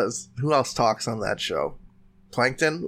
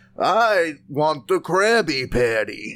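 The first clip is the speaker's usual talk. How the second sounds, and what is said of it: Plankton impression from SpongeBob. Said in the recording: “Let me do a Plankton. ... See? A+. ... That was pretty good. Yeah, it started out, it sounded a bit like Helga”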